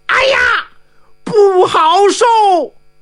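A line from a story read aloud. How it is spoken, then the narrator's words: Shouting. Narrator (Chinese): 杨龙玉大叫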